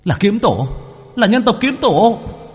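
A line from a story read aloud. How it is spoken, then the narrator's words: Demon crying out. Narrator (Vietnamese): không biết là một yêu tộc nào kêu lên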